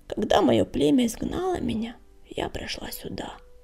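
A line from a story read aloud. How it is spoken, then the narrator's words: Barely audible whisper. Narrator (Russian): еле слышно зашептала она в самое ухо хвостолому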